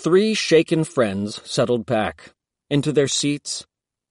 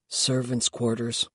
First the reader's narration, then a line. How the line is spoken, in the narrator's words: mumbled Ren